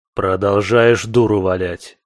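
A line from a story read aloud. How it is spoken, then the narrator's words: Smirking grunt. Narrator (Russian): хмыкнул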